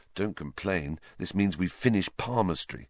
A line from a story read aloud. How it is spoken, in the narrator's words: Harry muttered back